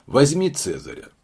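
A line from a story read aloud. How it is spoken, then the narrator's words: Plain. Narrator (Russian): сказал сыщик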